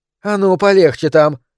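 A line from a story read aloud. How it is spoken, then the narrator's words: Woman's sharp shout. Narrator (Russian): прикрикнула на него рыжеволосая женщина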